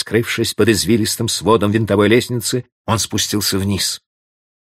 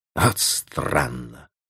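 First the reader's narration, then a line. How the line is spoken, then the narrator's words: Muttering. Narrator (Russian): бормотал Клод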